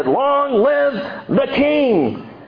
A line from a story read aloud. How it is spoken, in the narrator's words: So all the people shouted and said